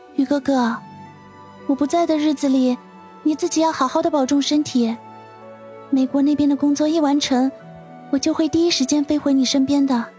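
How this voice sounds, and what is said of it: Soft, quiet speaking. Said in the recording (Chinese): “轻轻的吐了口气，小声的说道”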